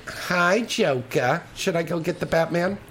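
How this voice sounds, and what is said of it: Cartoon villainess character voice. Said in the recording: “Do the Harlequin voice.”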